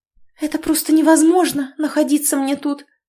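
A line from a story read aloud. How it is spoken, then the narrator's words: Babbling. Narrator (Russian): лепетала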